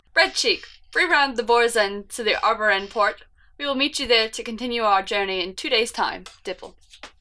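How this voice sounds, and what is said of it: Character voice with an accent. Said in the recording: “read this in Dipple's voice ... I want to bring back her accent.”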